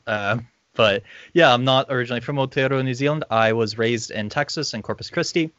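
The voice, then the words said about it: Slightly Irish-sounding, not quite American accent. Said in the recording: “You actually kind of have an Irish accent ... Americans say that I sound like slightly not American.”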